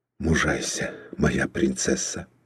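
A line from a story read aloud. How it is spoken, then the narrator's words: Whispered. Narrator (Russian): прошептал он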